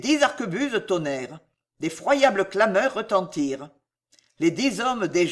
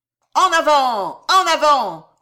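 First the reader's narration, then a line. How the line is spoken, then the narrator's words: Shouted loudly. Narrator (French): vociféra Danville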